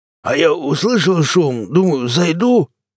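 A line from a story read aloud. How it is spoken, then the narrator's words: Hoarse drunken bass. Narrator (Russian): пробасил он хриплым пропитым голосом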